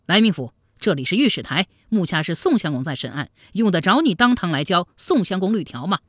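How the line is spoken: Angry. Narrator (Chinese): 来俊臣脸上怒气顿生

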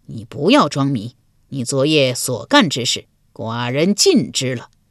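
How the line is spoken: Sneering. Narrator (Chinese): 鲁桓公又是一声冷笑

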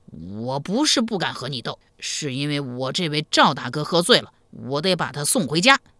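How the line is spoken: Loud, defiant. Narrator (Chinese): 铁二蛋醒悟过来，但又不愿意向齐二娇服输，大声说道

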